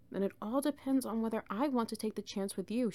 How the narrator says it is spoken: she murmured

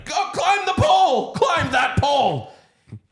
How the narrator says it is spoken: kept yelling

